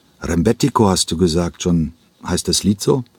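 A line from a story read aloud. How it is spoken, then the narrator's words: Plain question. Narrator (German): fragte Dieter Gräfe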